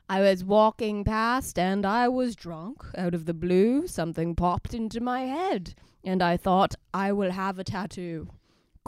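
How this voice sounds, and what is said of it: Put-on accent while reading story. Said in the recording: “when you're doing the accent? ... I am nailing this.”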